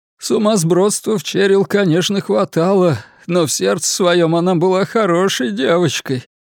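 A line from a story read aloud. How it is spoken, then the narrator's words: Sobbing father. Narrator (Russian): сказал полиции рыдающий отец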